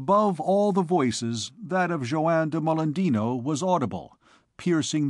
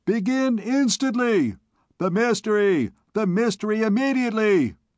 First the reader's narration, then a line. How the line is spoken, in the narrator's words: shrieked the people